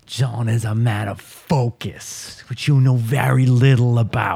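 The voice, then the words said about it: Well-done put-on accent. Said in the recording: “You are nailing that accent. Nicely done.”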